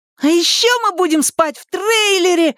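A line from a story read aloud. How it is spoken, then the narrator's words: Youngest child's excited yell. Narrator (Russian): восторженно завопил младший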